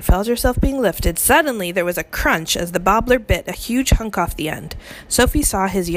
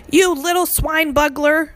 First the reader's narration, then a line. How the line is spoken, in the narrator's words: roared the bobbler